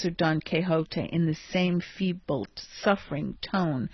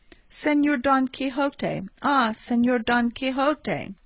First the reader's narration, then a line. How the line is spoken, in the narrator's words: Sancho called to him in a weak and doleful voice